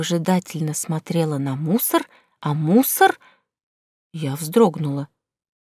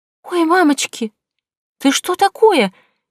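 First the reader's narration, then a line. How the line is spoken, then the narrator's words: Frightened cry. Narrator (Russian): испуганно вскрикнула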